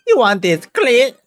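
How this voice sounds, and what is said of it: Seductive put-on accent. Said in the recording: “Why did you say it like that with that accent?”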